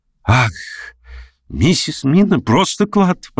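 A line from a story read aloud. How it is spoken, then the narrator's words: Exclaiming. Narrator (Russian): воскликнул он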